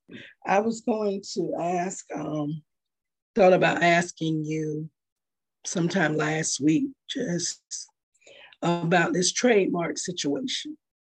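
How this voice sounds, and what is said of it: Hoarse, fading voice. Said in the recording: “Seems like I'm losing my voice.”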